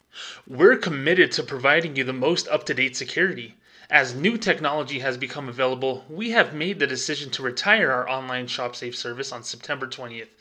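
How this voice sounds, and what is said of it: Exaggeratedly excited reading voice. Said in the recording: “in my most excited voice.”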